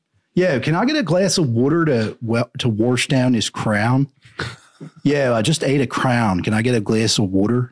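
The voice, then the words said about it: Put-on Philadelphia accent. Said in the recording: “the Philly accent ... it's like this amalgamation of like Southern, maybe, and New York”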